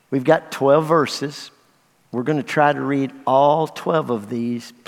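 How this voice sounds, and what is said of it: Western Kentucky accent. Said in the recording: “I'm from Western Kentucky. You know I have an accent.”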